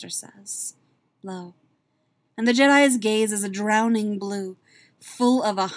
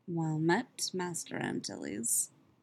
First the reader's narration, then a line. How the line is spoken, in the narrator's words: says softly